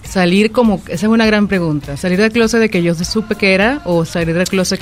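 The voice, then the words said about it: Venezuelan Spanish accent. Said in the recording (Spanish): “Venezolana, escuché tu acento diferente”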